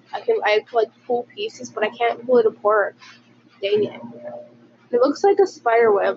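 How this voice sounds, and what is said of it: Sick, congested-sounding voice. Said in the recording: “I'm sick and I sound like a fetus.”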